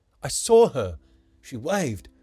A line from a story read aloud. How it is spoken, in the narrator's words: the boy exclaimed and swore